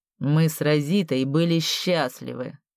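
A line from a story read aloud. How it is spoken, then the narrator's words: Cold. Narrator (Russian): холодно произнес Фразье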